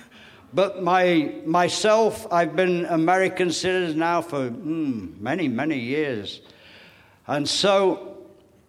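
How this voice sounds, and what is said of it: English accent. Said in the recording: “ex-Englishman ... I am now Americanized ... My accent still has a lot to catch up on that.”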